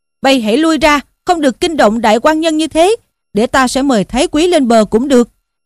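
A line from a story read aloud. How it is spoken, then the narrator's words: Shouting, two voices. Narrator (Vietnamese): Tống Giang và Ngô Dụng quát lên rằng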